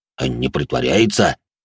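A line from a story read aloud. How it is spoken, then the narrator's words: Displeased deep bass. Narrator (Russian): недовольным голосом пробасил де Журиньи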